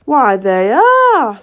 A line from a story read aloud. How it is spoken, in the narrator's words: said the King triumphantly